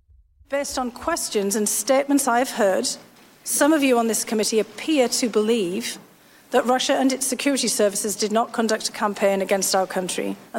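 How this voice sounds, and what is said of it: Charming accent. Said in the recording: “the charming accent”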